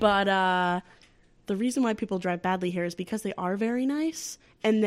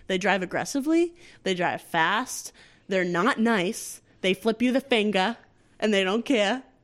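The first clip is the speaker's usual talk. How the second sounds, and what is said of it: Put-on Boston accent. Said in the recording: “that's a Boston accent.”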